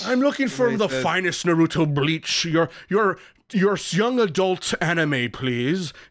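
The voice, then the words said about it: Weird lazy put-on British accent. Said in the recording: “This is a weird accent... it's like lazy man British”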